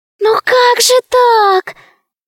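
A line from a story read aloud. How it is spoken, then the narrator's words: Terrified squeak. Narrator (Russian): пискнул один из зайчиков, дрожа от ужаса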